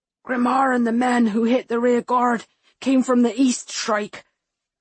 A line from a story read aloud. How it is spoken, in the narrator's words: he rasps, determined to deliver the message